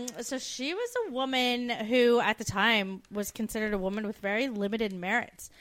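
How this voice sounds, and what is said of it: Usual voice. Nothing is said of it.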